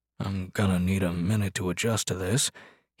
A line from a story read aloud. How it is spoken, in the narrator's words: he said gruffly